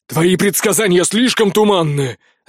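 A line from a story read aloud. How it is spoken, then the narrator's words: Barked. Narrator (Russian): рявкнул Дерин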